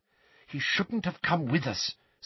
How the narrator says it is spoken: said Hermione in a worried voice

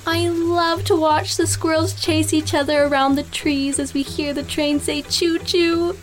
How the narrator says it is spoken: Blake squealed to Virginia the conductor

